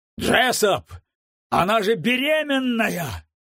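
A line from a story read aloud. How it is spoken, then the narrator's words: Horrified cry. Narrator (Russian): в ужасе выкрикнул Уэллен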